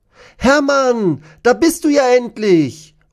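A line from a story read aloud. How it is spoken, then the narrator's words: Called out. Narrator (German): ruft Dinos Freundin Nicola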